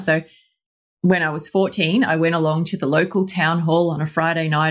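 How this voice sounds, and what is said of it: Australian accent. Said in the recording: “you could probably tell from my accent, I am Australian.”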